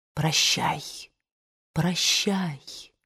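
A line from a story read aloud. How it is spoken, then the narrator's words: Choked with sobs. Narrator (Russian): Рыдания подступили у нее к горлу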